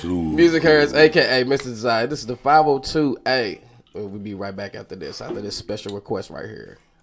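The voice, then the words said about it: Deep radio DJ voice. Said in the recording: “in with a deep voice”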